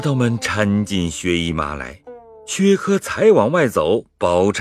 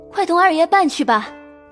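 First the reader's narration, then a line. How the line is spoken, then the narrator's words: Anxious call. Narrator (Chinese): 宝钗急得 在帘子里叫人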